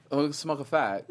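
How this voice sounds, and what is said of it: Put-on British accent. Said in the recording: “you say it with a British accent, now go do it. ... That was good. That was good.”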